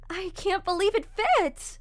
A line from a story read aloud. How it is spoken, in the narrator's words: Paranoia exclaimed